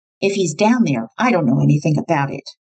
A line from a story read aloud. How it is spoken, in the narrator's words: With a hard, cold, icy stare, she snapped